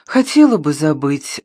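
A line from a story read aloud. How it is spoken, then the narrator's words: Sighing mother. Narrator (Russian): вздохнула мать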